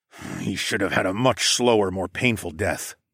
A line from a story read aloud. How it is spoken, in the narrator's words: I growled